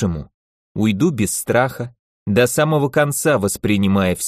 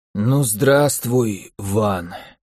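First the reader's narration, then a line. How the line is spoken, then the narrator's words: Hoarse, sick man. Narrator (Russian): хрипло проговорил больной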